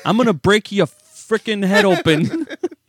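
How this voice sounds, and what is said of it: Put-on accent, threatening tone. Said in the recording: “you can threaten somebody with that accent, and it's magnified”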